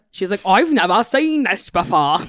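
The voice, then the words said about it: Bad South African accent. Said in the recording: “This is a terrible South African accent.”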